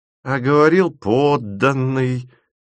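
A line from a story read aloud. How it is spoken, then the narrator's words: Disappointed drawl. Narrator (Russian): протянула тетя Валя разочарованно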